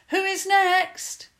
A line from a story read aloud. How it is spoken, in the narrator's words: called out